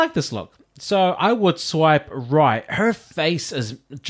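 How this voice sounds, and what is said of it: Usual voice. Nothing is said of it.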